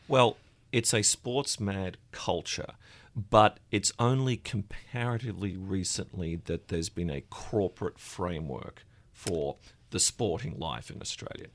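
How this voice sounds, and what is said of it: Australian accent. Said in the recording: “You're Australian. I believe your accent tips you off.”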